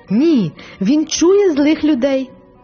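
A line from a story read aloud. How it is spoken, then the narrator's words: Sudden happy exclamation. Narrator (Ukrainian): Несподівано її обличчя освітилося щастям, і вона вигукнула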